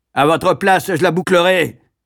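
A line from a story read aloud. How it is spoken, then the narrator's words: Booming voice from platform. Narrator (French): tonna la voix sur l'estrade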